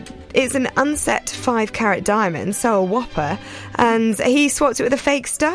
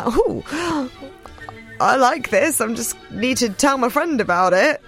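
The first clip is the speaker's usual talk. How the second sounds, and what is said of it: Comic put-on thief voice. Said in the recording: “Is that your impression of a thief?”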